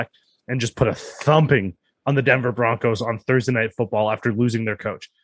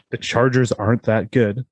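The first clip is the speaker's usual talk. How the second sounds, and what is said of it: Whispered line. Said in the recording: “That's why I had to whisper it.”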